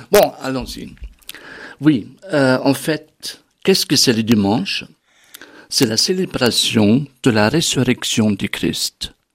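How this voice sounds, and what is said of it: Bavarian German accent speaking French. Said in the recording (French): “je suis d'origine bavaroise, ce qui explique aussi mon accent”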